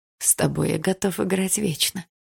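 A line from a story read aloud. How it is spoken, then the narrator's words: Whispered in her ear. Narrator (Russian): прошептал ей на ухо блондин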